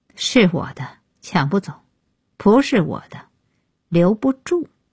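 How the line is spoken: Cold interruption. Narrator (Chinese): 安爷开口冷冷打断

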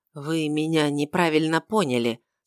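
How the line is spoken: Soft. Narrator (Russian): сказал он мягко

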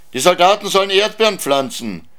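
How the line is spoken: Shouted. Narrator (German): schrien die Knuffs

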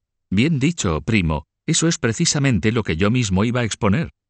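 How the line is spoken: Duke exclaiming from dais. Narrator (Spanish): desde el estrado, el duque Ed exclamó

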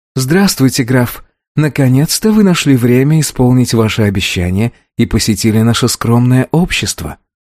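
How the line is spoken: Sweet smiling coo. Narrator (Russian): мило улыбнувшись, во все 64 зуба проворковала

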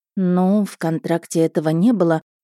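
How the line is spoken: Mumbling. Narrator (Russian): промямлила

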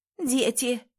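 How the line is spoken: Hoarse rasp. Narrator (Russian): прохрипела

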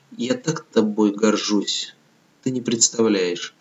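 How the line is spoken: Long tender whispering. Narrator (Russian): долго-долго шептала

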